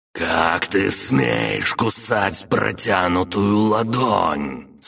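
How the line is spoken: Ogre hissing angrily. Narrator (Russian): Со злостью прошипел людоед

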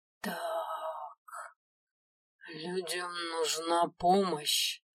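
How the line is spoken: Gloomy drawl. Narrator (Russian): хмуро протянул Киви

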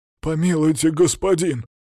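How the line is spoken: Whimpering guard captain. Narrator (Russian): захныкал глава городской стражи

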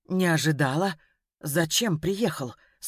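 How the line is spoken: Timid question. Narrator (Russian): спросила она робко

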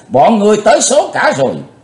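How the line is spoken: Thunderous roar. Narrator (Vietnamese): Quái tà gầm gian tợ sấm

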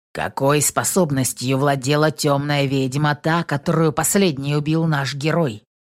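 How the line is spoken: Stern shaman asking. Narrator (Russian): строго спросил шаман

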